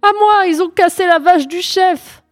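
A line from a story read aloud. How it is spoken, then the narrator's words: Yelling. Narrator (French): hurla M'Bolo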